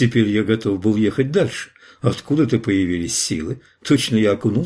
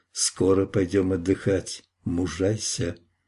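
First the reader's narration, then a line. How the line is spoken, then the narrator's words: Gentle whisper. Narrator (Russian): Флорентиец шепнул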